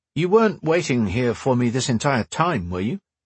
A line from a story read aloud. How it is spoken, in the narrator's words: he asked